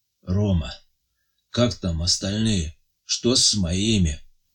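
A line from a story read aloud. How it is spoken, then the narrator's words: Weak voice. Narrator (Russian): спрашивает Андрей Матвеевич слабым голосом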